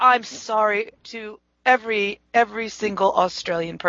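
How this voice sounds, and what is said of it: Usual voice. Nothing is said of it.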